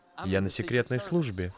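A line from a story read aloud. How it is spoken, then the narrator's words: Whisper. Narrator (Russian): Тот прошептал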